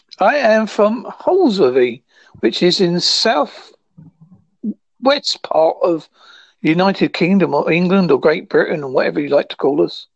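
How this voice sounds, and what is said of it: Strong English regional accent. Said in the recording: “you sound incomprehensible ... my accent's quite a strong one”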